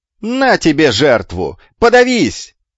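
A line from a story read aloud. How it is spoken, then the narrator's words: Yelling, lofty mixed with crude. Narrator (Russian): заорал амфитрион, мешая божественное с базарным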